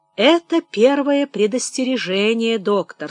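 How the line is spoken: Calm remark. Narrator (Russian): спокойно заметил Ставровский, когда пришел в себя

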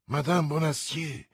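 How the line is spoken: Murmur. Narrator (Italian): mormorò D'Artagnan

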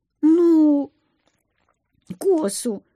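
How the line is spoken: Timid babble. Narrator (Russian): пролепетала

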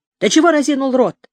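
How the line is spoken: Shouted in Uzbek. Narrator (Russian): крикнул по-узбекски

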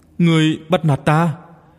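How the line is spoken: Choked, tearful voice. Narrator (Vietnamese): Ninh Vũ Điệp nghẹn ngào mà nói

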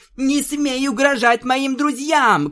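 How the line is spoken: Shouted. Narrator (Russian): крикнула Твайлайт

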